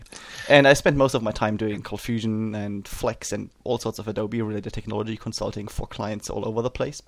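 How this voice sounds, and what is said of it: German accent with Kiwi flavor. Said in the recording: “that weird accent ... I'm actually from Germany ... that interesting mix of German English with a Kiwi flavor”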